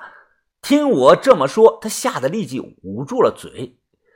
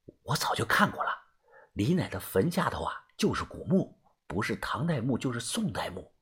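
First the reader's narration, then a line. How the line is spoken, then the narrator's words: Quiet whisper. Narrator (Chinese): 小声的说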